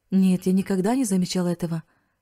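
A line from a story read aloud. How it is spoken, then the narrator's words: Plain. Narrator (Russian): ответил Риц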